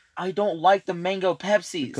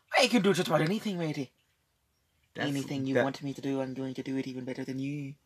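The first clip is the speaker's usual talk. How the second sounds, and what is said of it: Put-on Irish accent, pirate-like. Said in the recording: “sounded more like a pirate Irish”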